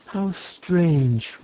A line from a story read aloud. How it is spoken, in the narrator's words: murmured Cecily, much impressed